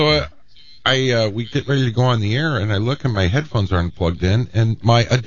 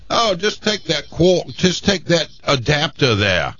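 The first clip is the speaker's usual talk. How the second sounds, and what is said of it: Bad put-on British accent. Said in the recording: “That's the worst British accent I've ever heard.”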